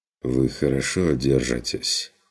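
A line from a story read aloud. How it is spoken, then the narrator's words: Understanding sigh. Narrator (Russian): вздохнул фон Люфтенхаймер с пониманием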